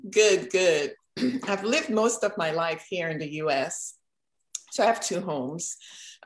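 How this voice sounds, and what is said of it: Trinidadian accent. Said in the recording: “I am originally from Trinidad and Tobago. So if you hear an accent, that's why.”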